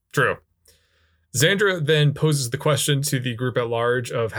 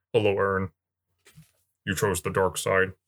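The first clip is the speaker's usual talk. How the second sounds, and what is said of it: Imitates another person's voice. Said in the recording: “You want me to do my Adam Driver impression?”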